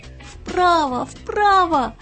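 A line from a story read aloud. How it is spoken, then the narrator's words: Little worm shouting desperately. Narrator (Russian): закричал червячок Игнатий изо всех сил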